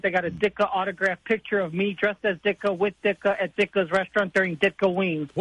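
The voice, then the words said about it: Strong regional accent. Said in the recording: “you sounded like an SNL skit right there ... when I get sad and excited, the accent comes out a little more”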